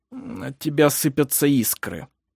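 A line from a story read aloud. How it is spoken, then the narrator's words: Mumbled. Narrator (Russian): пробормотал он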